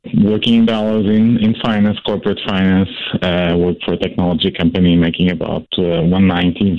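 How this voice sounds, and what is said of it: Foreign accent. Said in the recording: “obviously, by my accent, I was born overseas”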